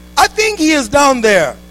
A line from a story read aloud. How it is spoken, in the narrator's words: yells